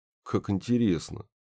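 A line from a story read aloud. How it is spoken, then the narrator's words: Mumbled. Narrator (Russian): пробормотал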